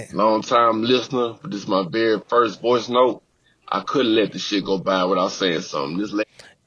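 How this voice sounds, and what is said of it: Louisiana New Orleans-style accent. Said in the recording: “this accent... Clear as day, right now, he ain't said 10 words, nigga. And I'm already getting more New Orleans... I'm getting more Louisiana”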